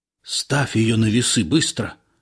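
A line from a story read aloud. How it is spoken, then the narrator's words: Whispered urgently. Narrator (Russian): шепнул мне Илларион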